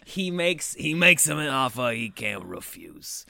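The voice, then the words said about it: Put-on mafia accent. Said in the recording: “I said offer he can't refuse with that dumb mafia accent.”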